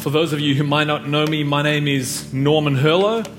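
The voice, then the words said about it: South African accent with New Zealand twang. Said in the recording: “I also have a South African accent ... there might be a little bit of New Zealand twang in there ... and then some Aussie that I've kind of picked up along the way”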